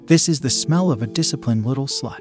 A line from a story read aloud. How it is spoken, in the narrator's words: he said calmly